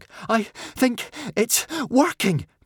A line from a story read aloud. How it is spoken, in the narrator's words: panted Hiccup